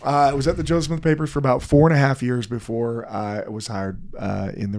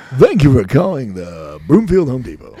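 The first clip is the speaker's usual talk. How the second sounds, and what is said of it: Polished radio announcer voice. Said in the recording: “his great radio voice.”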